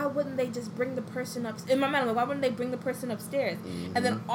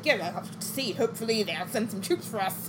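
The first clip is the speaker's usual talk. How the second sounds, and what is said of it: Jolly put-on British accent. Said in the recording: “That's not Jon Snow's voice. ... You're just doing a jolly a jolly ... British accent.”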